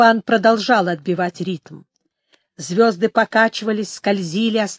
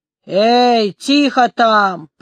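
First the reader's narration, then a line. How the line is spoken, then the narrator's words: Roaring man. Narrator (Russian): проревел второй человек из тех, что стояли у мачты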